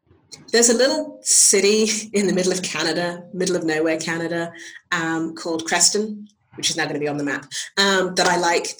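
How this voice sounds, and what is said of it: English accent. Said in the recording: “From England, cool. I mean, I got the accent”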